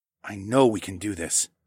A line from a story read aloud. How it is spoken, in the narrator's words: I murmured to Aliona